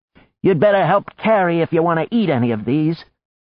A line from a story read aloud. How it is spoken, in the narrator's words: The bloody-handed woman shouted at the spear-thrower